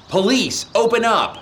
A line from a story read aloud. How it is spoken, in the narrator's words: Perry immediately started banging and shouting